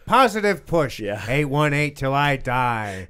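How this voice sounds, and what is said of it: Imitates another person's voice. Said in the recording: “that's a pretty good impression”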